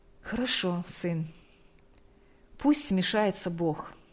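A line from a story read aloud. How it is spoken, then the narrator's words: Calm mother. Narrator (Russian): спокойно произнесла мать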